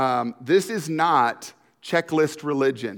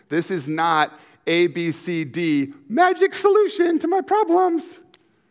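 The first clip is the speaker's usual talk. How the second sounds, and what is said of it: Voice suddenly goes high, falsetto. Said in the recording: “Not sure why I just went high ... sing in my falsetto”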